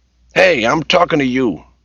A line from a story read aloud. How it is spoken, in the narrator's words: Jed yelled irritably